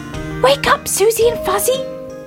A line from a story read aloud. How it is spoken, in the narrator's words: he cried